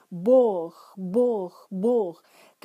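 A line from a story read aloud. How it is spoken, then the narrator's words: Loud chanting. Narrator (Russian): громко скандируя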